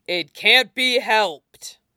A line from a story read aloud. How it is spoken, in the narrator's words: Nie Mingchui snarled over the lot of them